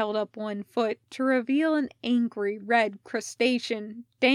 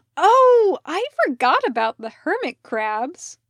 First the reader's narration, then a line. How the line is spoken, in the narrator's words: Parker cried